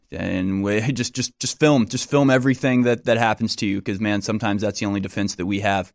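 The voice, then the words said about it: Smooth radio-host voice. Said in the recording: “You got your smooth radio voice down. ... a double dose of the smooth radio voice.”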